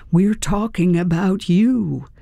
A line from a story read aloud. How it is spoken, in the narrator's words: They might as well have screamed